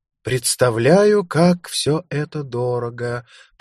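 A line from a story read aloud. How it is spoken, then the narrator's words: Drawled. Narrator (Russian): протянула Лукреция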